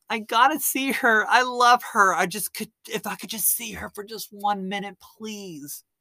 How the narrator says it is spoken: Robert pleading with him to be let in

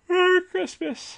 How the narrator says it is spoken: said, yawning

